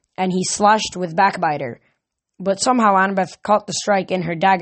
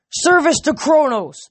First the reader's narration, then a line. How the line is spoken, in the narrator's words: Titan roared